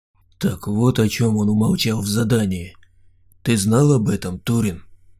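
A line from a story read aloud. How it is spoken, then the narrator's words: Quiet question. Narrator (Russian): тихо спросил Саня гнома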